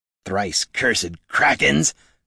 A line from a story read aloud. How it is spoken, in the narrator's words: Magrash grumbled